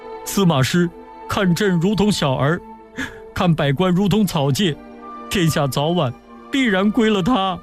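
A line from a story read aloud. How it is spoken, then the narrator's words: Crying. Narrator (Chinese): 曹芳哭着说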